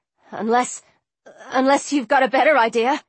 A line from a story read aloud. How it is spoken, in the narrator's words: he stammered, his face beading with perspiration